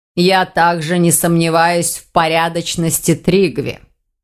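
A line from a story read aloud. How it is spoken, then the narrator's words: Plain. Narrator (Russian): ответил ему Элазар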